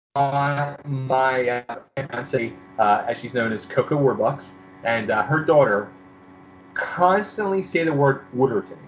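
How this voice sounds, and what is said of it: Strong Philadelphia accent. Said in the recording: “not have have lost an ounce of that Philly accent”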